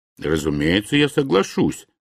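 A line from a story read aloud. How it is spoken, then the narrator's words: Plain. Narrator (Russian): сказал Билл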